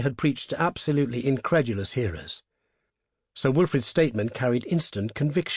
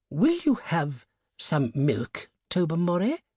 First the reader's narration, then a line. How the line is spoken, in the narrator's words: asked Lady Blemley in a rather strained voice